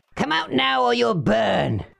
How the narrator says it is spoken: he shouted

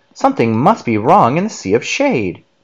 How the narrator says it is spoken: Professor Inkling exclaimed

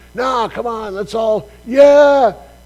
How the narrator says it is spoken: enough people shouting it

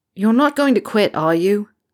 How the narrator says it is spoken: Harry said loudly

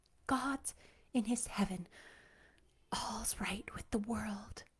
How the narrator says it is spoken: whispered Anne softly

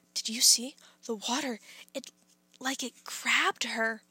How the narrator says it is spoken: The kids were whispering

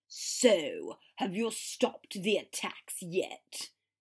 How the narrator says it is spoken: he sneered

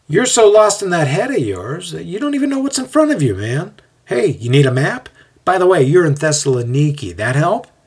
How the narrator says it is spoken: he says with a laugh

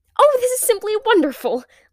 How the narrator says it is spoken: Lila exclaimed

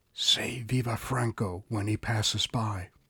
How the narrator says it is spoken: answered, and whispered

